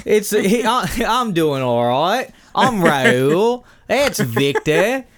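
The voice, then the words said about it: Fake Australian South African accent. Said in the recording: “this faux Australian English African accent ... You sound like Leo in Blood Diamond”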